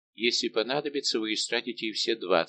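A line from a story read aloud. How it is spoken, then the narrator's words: Completely dispassionate tone. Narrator (Russian): сказал Арамис совершенно бесстрастным тоном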